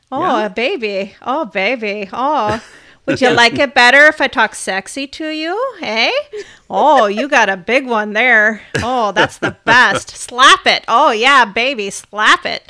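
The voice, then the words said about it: Put-on Midwestern accent, sexy tone. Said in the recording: “you don't like that accent ... can you make Midwestern sexy? ... make that kind of Minnesota sexy”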